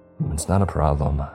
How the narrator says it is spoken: I said

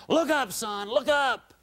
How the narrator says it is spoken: An older sailor underneath shouted up

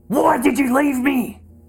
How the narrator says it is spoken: he screamed

